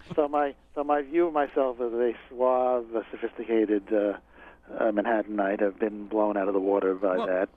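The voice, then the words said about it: New York accent. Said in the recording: “I always thought that I didn't really have a New York accent... I've been disabused of that notion by the many people who say, and it's great to have somebody with a New York accent like that reading the book”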